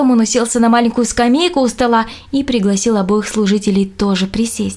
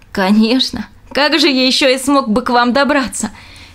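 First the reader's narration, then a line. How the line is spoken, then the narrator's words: Laughing. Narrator (Russian): смеялся Роб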